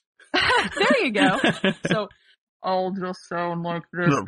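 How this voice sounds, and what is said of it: Deliberately lowered, deeper voice. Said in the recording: “my voice is a little too high to be Cole. I don't have the deep voice ... Just drop down a register”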